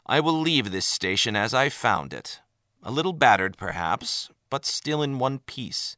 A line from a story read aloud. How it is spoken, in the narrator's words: he began evenly, disguising his frustration